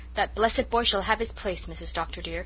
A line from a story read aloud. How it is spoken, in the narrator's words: said Susan firmly